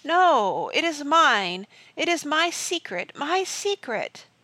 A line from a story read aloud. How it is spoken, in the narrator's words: The sea voice of the blackness cried out as if in pain